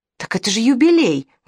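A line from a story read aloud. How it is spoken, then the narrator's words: Exclaimed. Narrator (Russian): воскликнул Филарх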